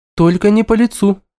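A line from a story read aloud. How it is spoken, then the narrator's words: Anxious interjection. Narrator (Russian): взволнованно вступилась Ника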